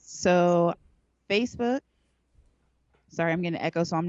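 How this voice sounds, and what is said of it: Usual voice. Nothing is said of it.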